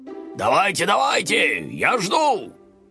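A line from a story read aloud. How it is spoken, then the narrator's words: Old man shouting. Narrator (Russian): Дедушка выглянул из воды и закричал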